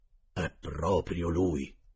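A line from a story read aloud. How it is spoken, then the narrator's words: Convinced exclamation. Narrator (Italian): il cuoco esclamò convinto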